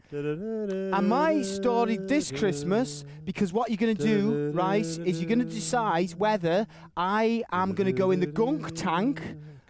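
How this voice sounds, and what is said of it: Strong put-on American accent. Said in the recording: “I am American... I thought you hear an accent there... it's a very strong accent”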